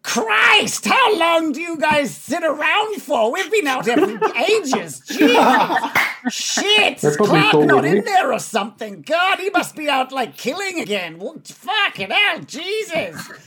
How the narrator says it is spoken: the closest one just yells out

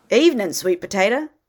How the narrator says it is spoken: Adam smiled a tad too cheerfully

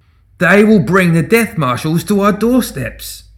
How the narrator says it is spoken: Simeon bellowed

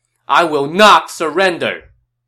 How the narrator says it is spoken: Ju Shou shouted

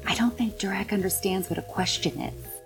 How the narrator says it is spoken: I'm going to whisper to Siggy

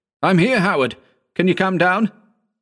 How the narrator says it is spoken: shouted

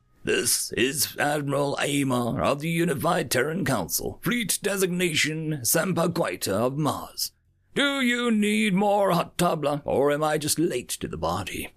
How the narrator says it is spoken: he chuckled

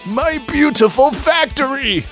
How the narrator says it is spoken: Robotnik cried

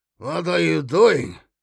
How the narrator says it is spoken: He slurred

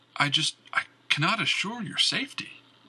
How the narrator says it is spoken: the warden had pleaded

